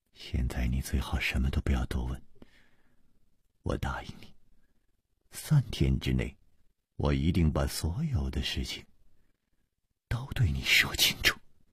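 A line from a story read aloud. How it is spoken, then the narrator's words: Soft, gentle. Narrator (Chinese): 楚留香柔声说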